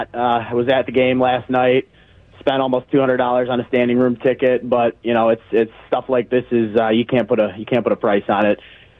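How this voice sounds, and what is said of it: Hoarse, worn-out voice. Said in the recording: “Sorry if my voice sounds a little shot.”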